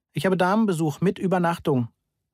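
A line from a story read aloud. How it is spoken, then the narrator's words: Said loudly. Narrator (German): sagte ich laut zu Frau Horns verzerrtem Gesicht im Fenster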